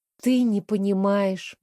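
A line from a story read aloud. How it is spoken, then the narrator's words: Sighing. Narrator (Russian): вздохнула я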